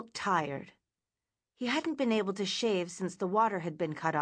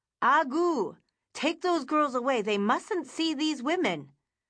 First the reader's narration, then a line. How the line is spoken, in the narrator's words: Father Engelman yelled fiercely